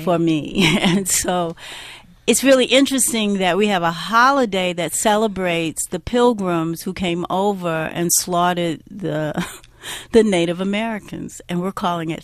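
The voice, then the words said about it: Black American accent. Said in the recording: “of course you can hear from my accent, I'm a Black American”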